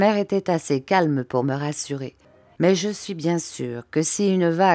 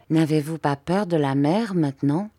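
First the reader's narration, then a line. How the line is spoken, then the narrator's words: Very timid little girl. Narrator (French): se sentit le courage de me dire, bien timidement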